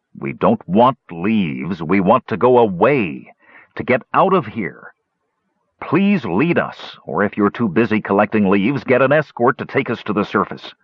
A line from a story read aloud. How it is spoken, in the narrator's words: with the greatest drain on his limited patience that Flint managed to growl